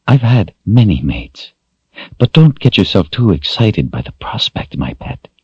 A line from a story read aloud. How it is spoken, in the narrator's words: she breathed